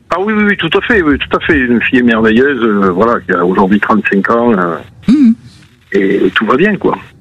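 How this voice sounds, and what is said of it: Toulouse regional French accent. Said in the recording (French): “mon accent de Toulouse”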